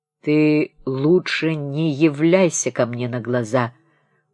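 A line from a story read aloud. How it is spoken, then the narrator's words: Old man's threatening grumble. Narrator (Russian): ворчал с угрозой старик, шагая в волнении по комнате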